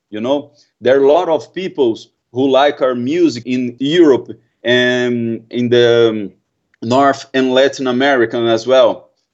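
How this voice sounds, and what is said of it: Strong Brazilian Portuguese accent. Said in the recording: “I have this pretty hard accent ... my hard accent ... Brazil”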